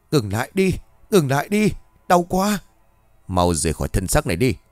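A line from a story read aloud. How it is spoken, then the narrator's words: Shouting. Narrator (Vietnamese): Cường hét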